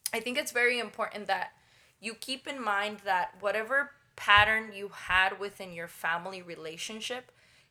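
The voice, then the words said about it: Speaks with a noticeable accent. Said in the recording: “putting aside my accent”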